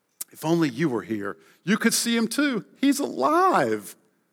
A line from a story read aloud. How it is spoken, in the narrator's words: Pinocchio happily repeated